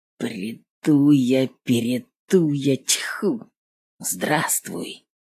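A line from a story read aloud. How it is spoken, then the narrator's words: Whisper. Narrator (Russian): прошептал он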